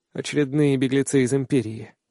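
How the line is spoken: Weary reply. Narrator (Russian): устало отвечаю я

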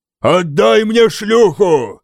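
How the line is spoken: Roaring. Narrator (Russian): взревел он

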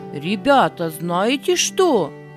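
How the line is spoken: Commanding. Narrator (Russian): сказал он повелительным голосом

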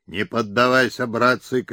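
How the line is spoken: Shouting from horseback. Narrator (Russian): кричал он с коня

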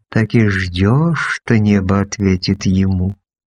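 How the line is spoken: Purring. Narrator (Russian): промурлыкала

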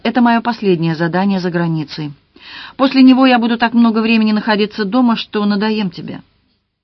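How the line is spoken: Gentle, affectionate. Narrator (Russian): Роберт ласково сказал

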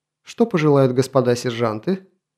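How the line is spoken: Pleased grunt. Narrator (Russian): Булыжник довольно хмыкнул

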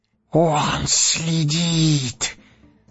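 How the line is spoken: Hoarse wheeze. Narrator (Russian): просипел Горлум

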